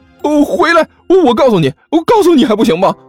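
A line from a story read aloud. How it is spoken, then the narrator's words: Anxious shout. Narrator (Chinese): 齐剑顿时就急了，对着她喊了一声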